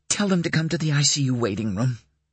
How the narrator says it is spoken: Dana said hoarsely

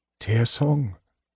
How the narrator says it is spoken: Gold Moon choked

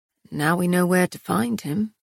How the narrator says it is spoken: Castile murmured

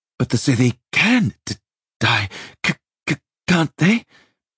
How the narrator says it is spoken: he asked cautiously, cursing his frozen, stuttering speech

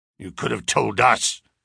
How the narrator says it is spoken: growled Mr

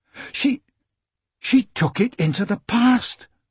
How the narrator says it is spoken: Michael gasped

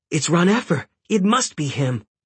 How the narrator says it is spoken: Hecate cried

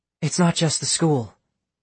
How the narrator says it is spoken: Astrid said

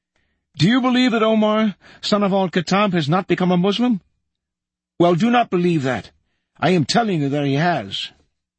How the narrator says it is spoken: began shouting at the top of his voice

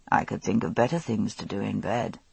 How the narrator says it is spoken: he murmured

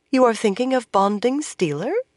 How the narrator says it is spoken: Moiraine asked in an innocent voice

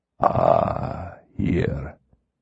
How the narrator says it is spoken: he purred

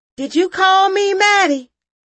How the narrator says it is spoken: I yelled to her

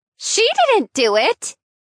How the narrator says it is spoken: someone yelled

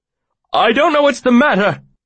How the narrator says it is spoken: he cried, looking about wildly

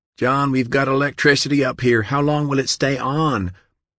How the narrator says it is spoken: John repeated the question to her, having to shout to be heard

